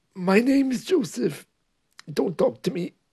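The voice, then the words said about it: Strained voice speaking on inhale. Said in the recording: “if you breathe in ... you can hear there that my voice was very, very stressed”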